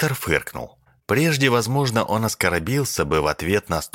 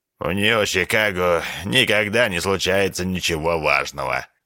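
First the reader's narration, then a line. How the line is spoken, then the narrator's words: Grumbling. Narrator (Russian): проворчал доктор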